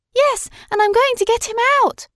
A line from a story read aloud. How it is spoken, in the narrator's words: exclaimed Madeline